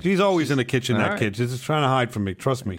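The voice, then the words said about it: Exaggerated put-on accent. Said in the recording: “I got a crazy accent ... or a crazy voice or something off about me ... I know I sound like Chef Ramsay”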